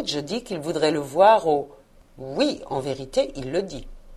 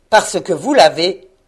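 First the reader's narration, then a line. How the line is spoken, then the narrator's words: Scornful grumble. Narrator (French): grommela Scrooge, comme si c'était la plus grosse sottise du monde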